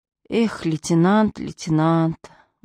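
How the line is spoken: Sighing. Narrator (Russian): вздохнул полицейский

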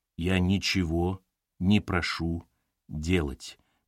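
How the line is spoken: Slow. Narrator (Russian): медленно произнес он

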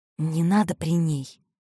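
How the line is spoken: Whisper. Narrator (Russian): шепнула Мариша

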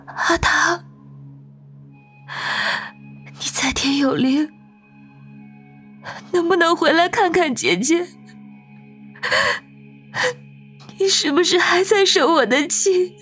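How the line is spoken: Choked voice. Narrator (Chinese): 声音哽咽

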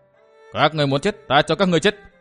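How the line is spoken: Shouted. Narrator (Vietnamese): Thạch Kiếm Cửu hét

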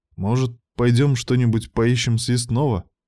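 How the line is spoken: Timid suggestion. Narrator (Russian): робко предложил

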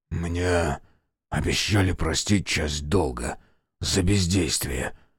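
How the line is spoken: Hoarse reply. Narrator (Russian): охрипшим голосом ответил

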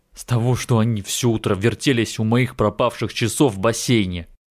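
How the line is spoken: Irritated sigh. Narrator (Russian): Джеймс раздраженно вздохнул

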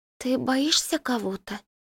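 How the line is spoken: Neighbor's husky question. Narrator (Russian): хрипловато спрашивает соседка

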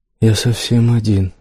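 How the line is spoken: Sobbing. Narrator (Russian): всхлипывал

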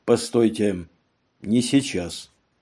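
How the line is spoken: Curt, dry. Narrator (Russian): Он сухо бросил ей

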